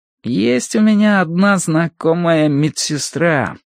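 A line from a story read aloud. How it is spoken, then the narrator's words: Thoughtful drawl. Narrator (Russian): протянул он задумчиво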